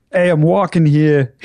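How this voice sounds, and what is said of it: Male Brooklyn accent. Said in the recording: “Do you do a male Brooklyn accent?”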